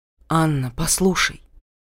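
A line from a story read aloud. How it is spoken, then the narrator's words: Quiet. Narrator (Russian): тихо сказал Рауль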